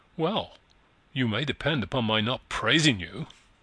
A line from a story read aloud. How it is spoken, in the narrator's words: she said dryly